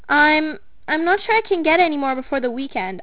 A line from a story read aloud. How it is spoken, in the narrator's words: I stammered